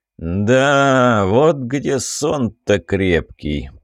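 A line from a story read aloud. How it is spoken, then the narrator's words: Village elder's drawl. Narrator (Russian): протянул староста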